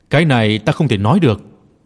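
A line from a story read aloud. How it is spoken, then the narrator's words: Smiling reply. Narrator (Vietnamese): La Trinh mỉm cười trả lời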